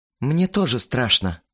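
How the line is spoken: Sighed. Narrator (Russian): вздохнул Кирилл

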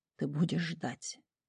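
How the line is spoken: Male whisper. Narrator (Russian): прошептал

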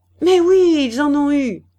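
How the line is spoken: Angry cry. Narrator (French): s'écria-t-elle en colère

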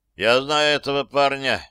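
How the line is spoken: Gloomy. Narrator (Russian): мрачно сказал Рик

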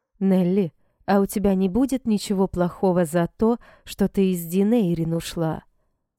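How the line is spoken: Plain. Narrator (Russian): спросила Эшлин

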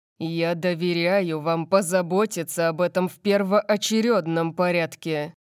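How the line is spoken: Growl. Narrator (Russian): прорычал

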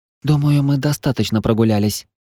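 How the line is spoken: Redhead whispered. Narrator (Russian): прошептала рыжая

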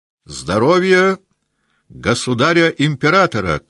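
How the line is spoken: Shout. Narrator (Russian): крикнул он

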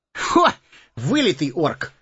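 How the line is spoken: Short laugh. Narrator (Russian): хохотнул Сэмми

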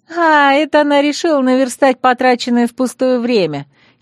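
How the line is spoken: Giggling. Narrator (Russian): хихикнула Лани Болган

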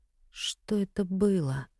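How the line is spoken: Mutter. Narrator (Russian): пробормотала она

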